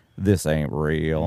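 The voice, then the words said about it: Mock Southern accent. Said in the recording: “sorry about that Southern accent”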